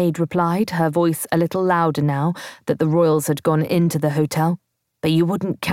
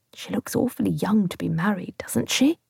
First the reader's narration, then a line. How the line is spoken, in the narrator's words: whispered